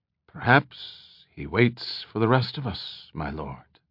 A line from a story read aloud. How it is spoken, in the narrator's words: Stee Jans said quietly